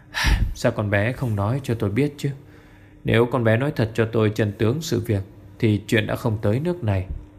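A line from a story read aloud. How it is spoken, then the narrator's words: Heavy sigh, ashamed. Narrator (Vietnamese): ông Tiền thở dài một hơi nặng nề, cất lời mà nghe hổ thẹn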